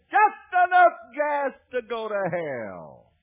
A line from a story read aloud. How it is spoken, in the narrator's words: he hollered out, he said